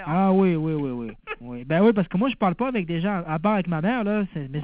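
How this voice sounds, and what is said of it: Mixed southern French and Québécois accent. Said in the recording (French): “tu as vraiment l'accent de là-bas, hein? ... T'as moitié accent de l'accent que tu avais avant, le sud, du sud de la France, et puis ... maintenant l'accent canadien. ... Québécois, quoi.”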